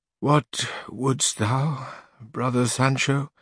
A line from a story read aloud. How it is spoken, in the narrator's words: answered Don Quixote in the same feeble, suffering tone as Sancho